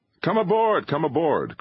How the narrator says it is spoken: cried Driscoll

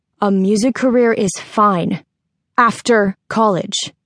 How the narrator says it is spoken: said firmly

